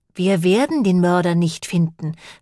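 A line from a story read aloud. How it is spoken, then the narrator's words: Sighing. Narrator (German): seufzte Lane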